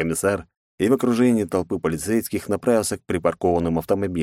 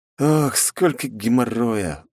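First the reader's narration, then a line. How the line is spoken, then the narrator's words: Weary exhale. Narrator (Russian): выдохнул я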